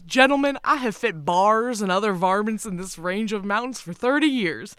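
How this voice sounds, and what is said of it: Put-on regional accent. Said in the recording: “this is the only quote that's, like, written in an accent.”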